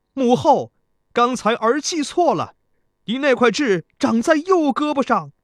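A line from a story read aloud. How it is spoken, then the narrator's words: Hurried loud shout. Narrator (Chinese): 贾公子急忙高声喊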